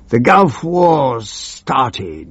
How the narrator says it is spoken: he cried triumphantly

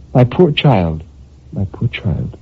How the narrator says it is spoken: murmured gently

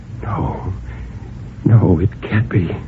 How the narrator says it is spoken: After a long time, Bill whispered

